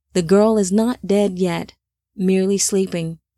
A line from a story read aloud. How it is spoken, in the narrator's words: the Beloved said